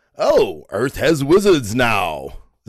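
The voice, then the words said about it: Imitates Thor's voice. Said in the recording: “my Thor impersonation. It's pretty good, I think.”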